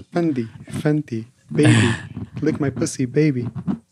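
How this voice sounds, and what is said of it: Rapper-style voice. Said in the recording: “good rap impression”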